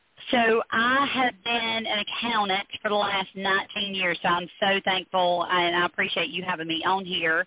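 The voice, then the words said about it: Speaks with a noticeable accent. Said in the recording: “at least I have a good accent, I think”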